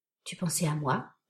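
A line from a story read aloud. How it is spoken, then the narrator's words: Murmuring in ear. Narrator (French): murmura Michael à mon oreille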